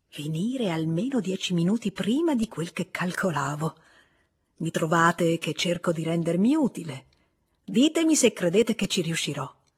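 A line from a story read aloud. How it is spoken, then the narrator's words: Rather low voice. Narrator (Italian): disse con voce piuttosto bassa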